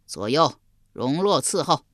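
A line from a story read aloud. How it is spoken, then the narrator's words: Loud delighted voice. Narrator (Chinese): 襄王喜得合不拢嘴，高声说道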